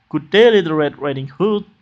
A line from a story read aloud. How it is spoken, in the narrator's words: said he